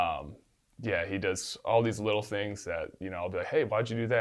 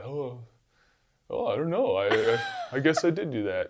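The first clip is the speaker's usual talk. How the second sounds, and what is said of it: Imitates another person's voice. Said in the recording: “great Gronk impersonation.”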